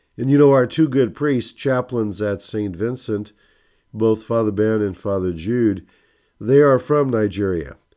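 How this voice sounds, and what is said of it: Strained voice, not at its best. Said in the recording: “My voice isn't the best, as you can tell.”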